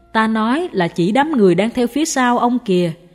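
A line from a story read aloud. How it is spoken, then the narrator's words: Smiling master continuing. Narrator (Vietnamese): Sư phụ mỉm cười nói tiếp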